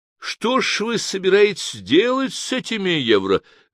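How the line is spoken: Exclamation. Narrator (Russian): воскликнул один из делегатов

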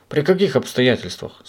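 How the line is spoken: Plain. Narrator (Russian): спросил его Пепперминт

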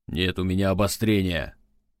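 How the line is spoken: Angry. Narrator (Russian): зло произнес он

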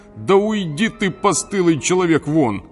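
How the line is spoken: Overexcited shout. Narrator (Russian): один чересчур наэлектризованный зритель крикнул Менелаю

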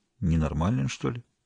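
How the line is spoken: Quiet. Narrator (Russian): она тихо сказала Полине Александровне

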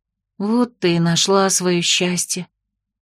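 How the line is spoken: Quiet sigh. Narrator (Russian): тихо вздохнула Октябрина

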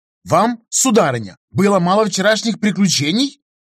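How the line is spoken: Indignant near-rude bark. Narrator (Russian): возмущенно рявкнул Оудар Ээка, едва не перейдя грань приличий

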